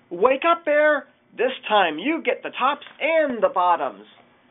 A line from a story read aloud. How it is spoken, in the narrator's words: Hare called out